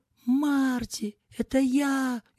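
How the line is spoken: Frantic screaming. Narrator (Russian): истошно орал Скотт

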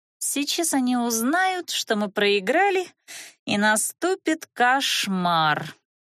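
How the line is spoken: Through gritted teeth. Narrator (Russian): сквозь зубы проговорила Розалия

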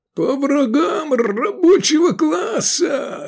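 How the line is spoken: Hoarse rasp. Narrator (Russian): хрипел Швыдкой

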